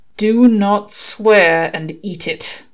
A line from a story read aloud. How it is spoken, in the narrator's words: replying through gritted teeth